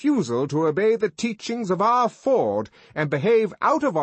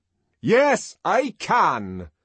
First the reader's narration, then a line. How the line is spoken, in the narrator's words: Bernard answered in a very loud voice, somewhat taken aback, but still majestically